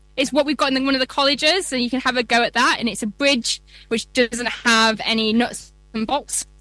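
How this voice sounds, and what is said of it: Yorkshire accent. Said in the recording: “very hard to say in a Yorkshire accent”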